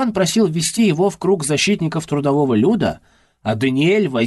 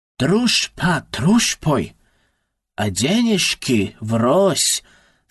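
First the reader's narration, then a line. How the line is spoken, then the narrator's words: Said in Russian. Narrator (Russian): сказал Даниэль по-русски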